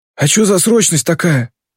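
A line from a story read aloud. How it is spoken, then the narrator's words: Hoarse question. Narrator (Russian): сипло спрашивает он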